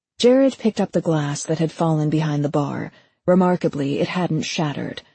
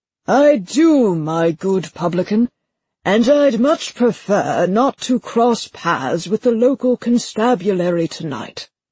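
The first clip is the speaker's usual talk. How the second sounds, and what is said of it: Rich put-on British accent. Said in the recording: “slipped into a rich British accent.”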